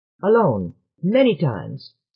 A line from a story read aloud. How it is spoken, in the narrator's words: snapped Dua